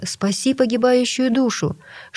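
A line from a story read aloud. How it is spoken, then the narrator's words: Pleading. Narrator (Russian): он взмолился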